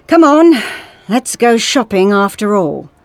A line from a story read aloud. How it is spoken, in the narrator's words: the doctor said wearily